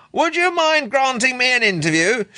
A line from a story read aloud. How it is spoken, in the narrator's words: shouted Lewin